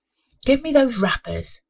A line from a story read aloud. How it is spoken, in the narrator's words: Pauline said